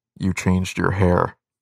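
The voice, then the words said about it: Kylo Ren character voice. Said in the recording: “do my Kylo Ren voice.”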